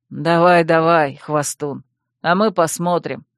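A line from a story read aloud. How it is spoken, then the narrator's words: Snide. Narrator (Russian): ехидно предложил первый сторож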